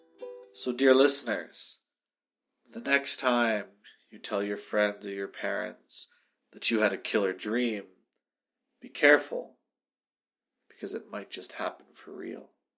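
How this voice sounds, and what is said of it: Dark, scary storytelling voice. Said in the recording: “That was dark, scary voice. ... It was a very, very dark, scary voice.”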